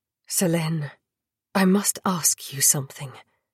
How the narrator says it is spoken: Philippe murmured

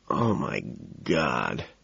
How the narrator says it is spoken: in a low, throaty voice

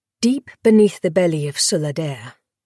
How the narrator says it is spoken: the last Liathi sighed

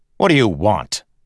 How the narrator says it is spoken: Kelsier snapped

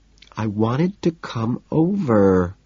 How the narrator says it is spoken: she says in a whiny little girl tone

